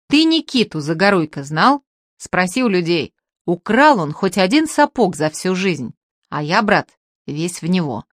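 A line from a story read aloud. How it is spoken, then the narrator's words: Stern. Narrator (Russian): строго сказал Артемка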